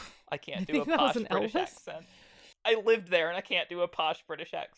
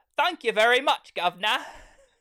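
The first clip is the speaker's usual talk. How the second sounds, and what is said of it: Put-on British accent. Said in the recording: “in a British accent”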